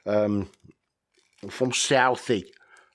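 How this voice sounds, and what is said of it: Put-on Boston accent. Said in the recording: “I don't know how good my Bostonian accent is... I'm starting to sound like Bill Burr now.”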